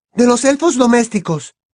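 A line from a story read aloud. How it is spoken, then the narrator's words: Said loudly. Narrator (Spanish): dijo Hermione en voz alta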